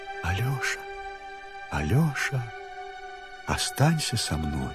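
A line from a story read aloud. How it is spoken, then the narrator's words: Soft speech. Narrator (Russian): она тихонько говорит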